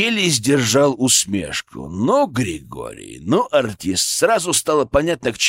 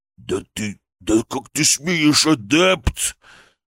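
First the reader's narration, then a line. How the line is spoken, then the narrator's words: Hissing. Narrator (Russian): прошипел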